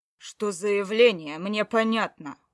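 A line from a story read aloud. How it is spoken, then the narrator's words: Near growl. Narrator (Russian): Он чуть ли не рычал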